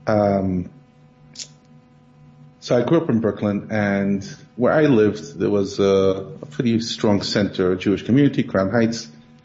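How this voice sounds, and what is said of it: Brooklyn accent. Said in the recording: “I grew up in Brooklyn. You could hear from my accent.”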